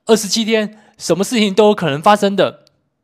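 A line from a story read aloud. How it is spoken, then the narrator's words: Sudden shout. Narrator (Chinese): 突然朝着我大喊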